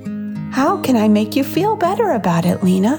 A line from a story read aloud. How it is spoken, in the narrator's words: simply asked kindly